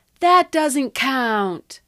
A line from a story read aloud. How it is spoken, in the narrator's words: Someone yelled